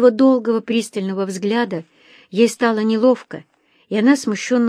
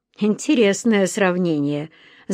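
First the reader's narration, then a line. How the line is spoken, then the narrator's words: Laughing. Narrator (Russian): засмеялся Вадим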